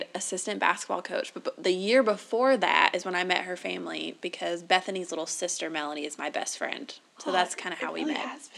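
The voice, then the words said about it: Southern US accent. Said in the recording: “we are Southern through and through, if you hadn't already figured that out from ... accent.”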